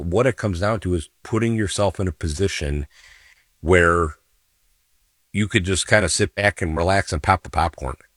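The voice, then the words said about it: Slightly scratchy voice. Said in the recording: “my voice may be a little scratchy today, folks... I'm not my normal self”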